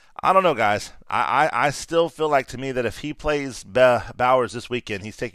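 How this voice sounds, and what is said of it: Usual voice. Nothing is said of it.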